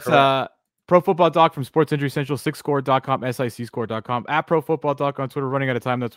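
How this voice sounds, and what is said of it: Talking very fast. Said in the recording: “where I'm talking really fast”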